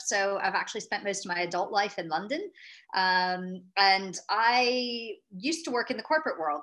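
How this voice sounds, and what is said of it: American accent. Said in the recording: “you can probably tell a little bit from my accent. ... I'm an American, but transplanted over to Europe”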